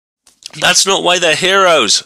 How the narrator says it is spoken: someone in the audience shouted

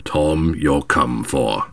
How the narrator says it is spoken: said the black fellow gruffly

